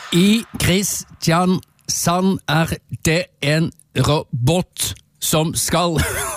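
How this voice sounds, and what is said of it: Robotic voice with Southern Norwegian dialect. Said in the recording (Norwegian): “prøver å snakke for det første sørlandsdialekt, men med robotvri... Det var den beste sørlandsdialekten du fikk... veldig vanskelig å snakke robotspråk og sørlandsdialekt samtidig”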